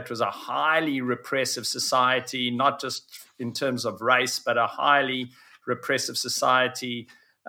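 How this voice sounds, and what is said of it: South African accent. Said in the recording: “you can hear my accent, I come from South Africa.”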